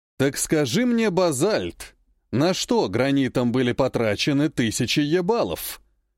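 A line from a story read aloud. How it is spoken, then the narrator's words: Snorting scoff. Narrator (Russian): хмыкнул Меджнун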